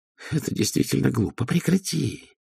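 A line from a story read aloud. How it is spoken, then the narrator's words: Hissed. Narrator (Russian): прошипел он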